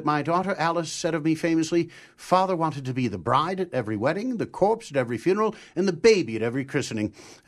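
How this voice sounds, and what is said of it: Impression of Theodore Roosevelt. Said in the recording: “quick impersonation ... I come to life as Theodore Roosevelt”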